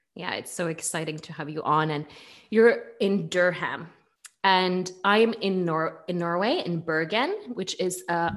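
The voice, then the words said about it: Norwegian accent in English. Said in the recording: “that accent was super Norwegian ... my Norwegian came out ... you have a lovely accent ... the way that um, Norwegians uh, speak English”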